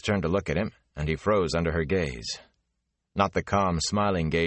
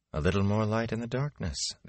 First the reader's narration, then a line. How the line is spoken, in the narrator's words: the Aes Sedai murmured